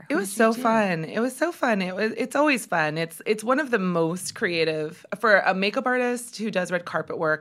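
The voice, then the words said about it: Slightly hoarse voice. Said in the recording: “Is your voice hoarse from last night? ... A little.”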